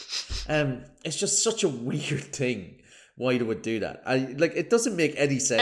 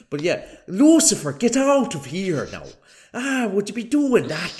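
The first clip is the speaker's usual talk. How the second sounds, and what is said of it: Exaggerated fake Irish accent. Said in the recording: “I put on a really fake Irish accent”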